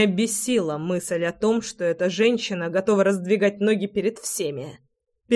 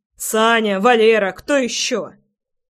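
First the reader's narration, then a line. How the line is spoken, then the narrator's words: Growling. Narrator (Russian): рычал я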